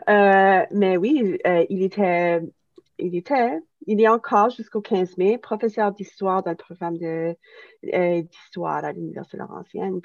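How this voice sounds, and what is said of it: Acadian French accent. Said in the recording (French): “on est Acadiens ... vous pouvez probablement l'entendre dans mon accent.”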